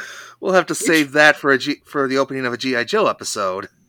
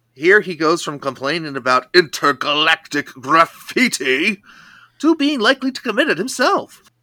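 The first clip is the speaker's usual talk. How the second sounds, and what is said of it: Good Destro cartoon villain imitation. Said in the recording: “that's a pretty good Destro imitation”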